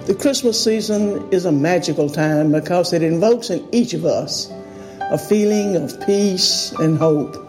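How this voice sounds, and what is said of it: Strong Alabama Southern accent. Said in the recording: “that accent is wild... It's Alabama... that's like the Dukes of Hazzard”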